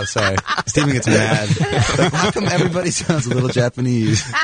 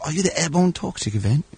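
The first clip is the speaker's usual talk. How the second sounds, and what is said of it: Put-on British accent. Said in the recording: “don't do the British accent.”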